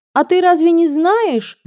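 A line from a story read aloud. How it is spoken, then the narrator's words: Girl shouting across table. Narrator (Russian): закричала через стол Маруся Запольская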